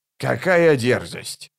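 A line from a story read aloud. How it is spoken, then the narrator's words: Grumbled. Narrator (Russian): проворчал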